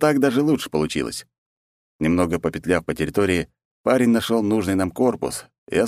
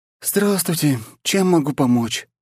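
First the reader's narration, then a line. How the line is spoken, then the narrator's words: Sleepy drawl. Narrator (Russian): сонным голосом протянула она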